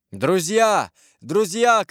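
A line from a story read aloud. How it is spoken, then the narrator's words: Shout. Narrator (Russian): кричал Морваль солдатам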